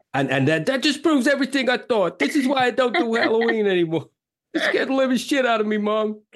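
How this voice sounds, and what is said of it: Good put-on New York accent. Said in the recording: “That was a very good New York accent.”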